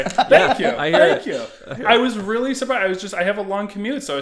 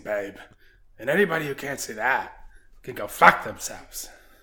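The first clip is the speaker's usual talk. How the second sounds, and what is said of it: Impression of a TV character. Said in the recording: “just went into a Roy Kent... like my one okay impression... that was good... it's highly accurate.”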